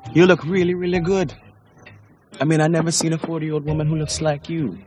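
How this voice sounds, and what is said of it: Weak put-on Jamaican accent. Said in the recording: “that Jamaican accent is atrocious ... it's kind of bad ... accents are hard ... any West Indian accent ... you can understand him”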